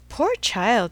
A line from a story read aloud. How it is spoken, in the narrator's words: cried Emma